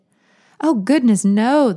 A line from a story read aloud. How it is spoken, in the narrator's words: the nurse said, chuckling